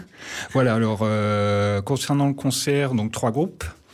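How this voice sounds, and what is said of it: Spanish accent speaking French. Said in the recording (French): “c'est mon accent, je parle juste espagnol”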